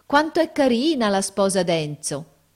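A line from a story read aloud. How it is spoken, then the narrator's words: Exclaimed. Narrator (Italian): esclamare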